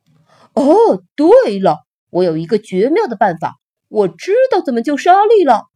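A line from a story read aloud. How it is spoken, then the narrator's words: Shouting. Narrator (Chinese): 帕奇 叫着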